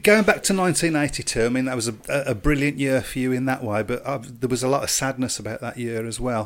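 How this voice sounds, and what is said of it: Brummie (Birmingham) accent. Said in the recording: “as a Brummie myself, I think sometimes our accent gets in the way”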